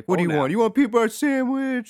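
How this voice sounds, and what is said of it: Mock dad voice. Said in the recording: “That's ... dad voice. ... This is my dad voice.”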